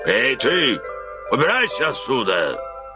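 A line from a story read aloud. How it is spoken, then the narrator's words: Menacing shout. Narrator (Russian): стражник грозно закричал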